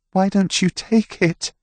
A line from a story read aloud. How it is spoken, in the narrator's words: She said, her voice trembling